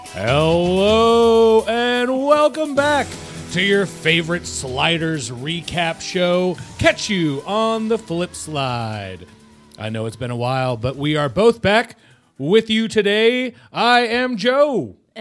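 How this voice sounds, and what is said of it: Baseball announcer voice. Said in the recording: “I feel like I'm at a baseball game. You have your announcer voice on.”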